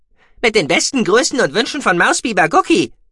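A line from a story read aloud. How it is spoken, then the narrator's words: Calling out into distance. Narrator (German): rief er in Richtung der Station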